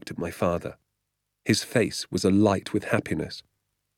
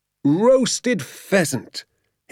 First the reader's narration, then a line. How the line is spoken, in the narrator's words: he cried out, addressing the moon and the entire countryside